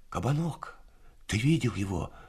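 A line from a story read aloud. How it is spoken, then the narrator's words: Whispered question, young man. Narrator (Russian): шепотом спросил один из них, мальчик лет 19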